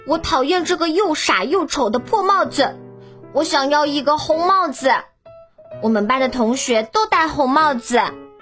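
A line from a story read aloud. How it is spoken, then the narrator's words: Angry child shouting. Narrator (Chinese): 小狗獾达尼 大声地喊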